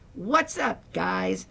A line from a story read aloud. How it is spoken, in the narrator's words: With a deep breath and a broad smile with a booming